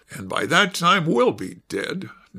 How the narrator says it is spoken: Nasha said bitterly

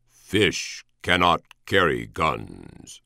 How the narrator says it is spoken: a voice had intoned

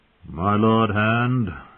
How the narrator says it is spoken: he intoned

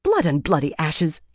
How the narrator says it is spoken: Elaine snapped

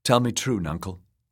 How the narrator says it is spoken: Asha said

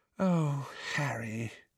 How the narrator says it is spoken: she said sadly

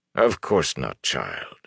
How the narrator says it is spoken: Bornhold said sadly

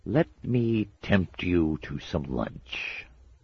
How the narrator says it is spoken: he hissed

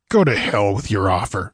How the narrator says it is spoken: snarled Conan

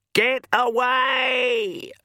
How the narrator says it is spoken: screamed

